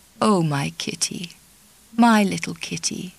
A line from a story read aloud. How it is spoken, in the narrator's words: he murmured